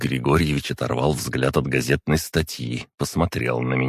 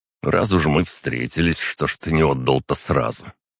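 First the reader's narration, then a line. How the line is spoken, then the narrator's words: Snorting question. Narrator (Russian): Александров хмыкнул и спросил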